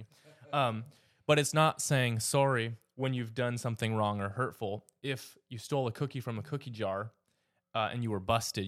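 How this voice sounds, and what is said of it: Canadian accent. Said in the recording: “Forgive the Canadian accent”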